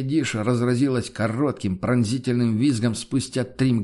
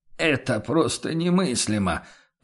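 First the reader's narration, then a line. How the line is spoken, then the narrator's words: Anguished mutter. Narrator (Russian): пробормотал торговец с тоской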